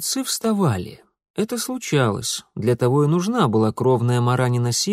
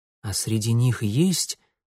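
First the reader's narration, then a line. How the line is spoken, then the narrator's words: Whispered. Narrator (Russian): прошептал Митя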